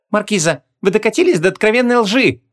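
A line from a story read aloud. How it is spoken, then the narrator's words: Scornful snort. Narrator (Russian): фыркнула Гвиньола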